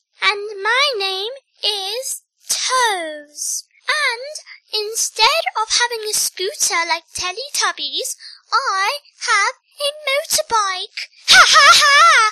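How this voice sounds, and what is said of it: Posh-sounding character voice. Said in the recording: “And I speak posh.”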